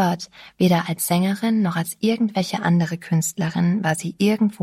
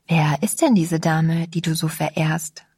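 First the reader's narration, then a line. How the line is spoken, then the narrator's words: Plain. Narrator (German): fragte ich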